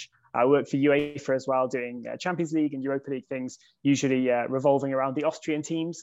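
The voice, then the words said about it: English accent. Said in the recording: “as you might be able to tell, I was born in England. You can probably get that from the accent”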